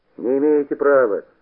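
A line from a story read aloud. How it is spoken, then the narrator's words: Snapping animal. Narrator (Russian): огрызнулся куница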